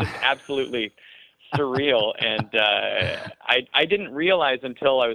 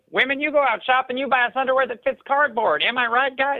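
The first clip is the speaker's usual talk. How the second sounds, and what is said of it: Southern-accented Gallagher-style comedy voice. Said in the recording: “loving Gallagher and doing his material ... with a Southern accent, too. I assumed every comedian had a Southern accent”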